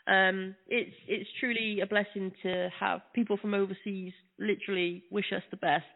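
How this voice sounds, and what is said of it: British accent. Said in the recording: “doesn't sound like Brooklyn ... I'm from the UK.”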